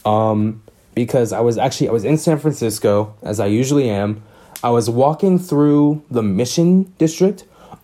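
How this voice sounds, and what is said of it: Scratchy, tired voice. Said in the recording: “my voice is kind of scratchy um i'm kind of tired”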